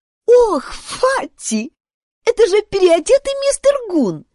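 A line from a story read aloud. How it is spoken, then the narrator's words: Giggling. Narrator (Russian): хихикала она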